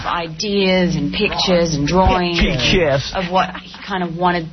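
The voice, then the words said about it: Australian accent. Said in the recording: “That's an Australian accent... It's all over the place, that Australian accent.”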